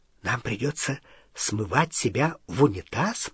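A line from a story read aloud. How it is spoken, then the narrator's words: Whisper. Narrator (Russian): прошептал Рон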